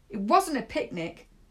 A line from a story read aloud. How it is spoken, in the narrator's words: Salom snapped